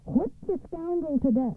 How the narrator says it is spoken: screamed the Tsaritsa

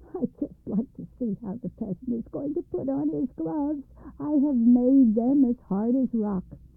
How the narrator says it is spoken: laughed, saying to himself

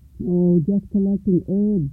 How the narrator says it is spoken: Alfred replied

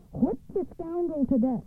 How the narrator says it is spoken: screamed the Tsaritsa

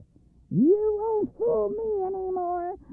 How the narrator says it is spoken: Baba Yaga cried overjoyed

